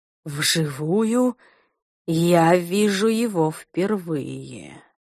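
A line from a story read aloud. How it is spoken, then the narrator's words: Breathed out. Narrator (Russian): выдохнул он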